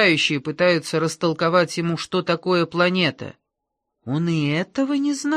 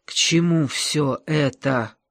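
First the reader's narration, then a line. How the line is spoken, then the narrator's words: Hoarse rasp. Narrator (Russian): прохрипел он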